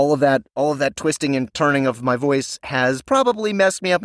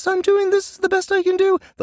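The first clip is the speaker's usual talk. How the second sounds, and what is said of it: Very high-pitched voice. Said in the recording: “do the highest pitched voice you possibly can”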